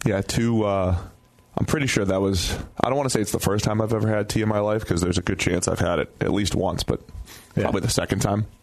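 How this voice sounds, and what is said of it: Strained voice, close to losing it. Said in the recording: “I might lose my voice at some point. ... I might lose it. ... You're battling hurt. You're playing hurt. You were texting me yesterday saying that you feared you were losing your voice.”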